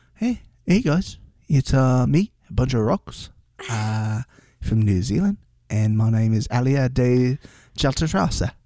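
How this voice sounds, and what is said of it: Put-on New Zealand accent. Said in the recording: “I was gonna try to put on like a New Zealand accent ... I'm gonna get out of that accent. ... That sounded pretty good.”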